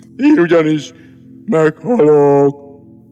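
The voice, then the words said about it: Even more sepulchral, gloomy voice. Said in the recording (Hungarian): “Mondta még síribb hangon”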